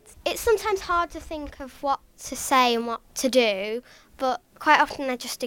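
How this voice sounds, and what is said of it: Posh London-sounding English accent. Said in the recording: “I'm teased for having an accent because people call me posh and they say that I must be from London ... Yes, I have an accent”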